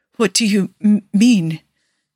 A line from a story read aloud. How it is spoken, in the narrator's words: Niccolo stutters